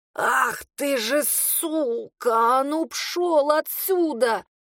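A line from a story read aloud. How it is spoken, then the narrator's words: Strained, hoarse. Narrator (Russian): Еле выдавила из себя с хрипом и тяжестью в горле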